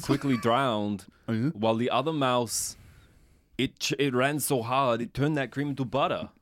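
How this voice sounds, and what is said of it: Christopher Walken impression, slipping. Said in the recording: “Christopher Walken is in this movie. ... I've lost the accent. ... It's a hard accent.”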